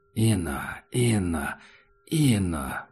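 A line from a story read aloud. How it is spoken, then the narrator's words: Creature's muttering. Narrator (Russian): бормотало существо в коридоре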